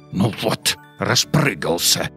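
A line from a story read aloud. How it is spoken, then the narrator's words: Angry snorting hedgehog. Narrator (Russian): сердито фыркнул еж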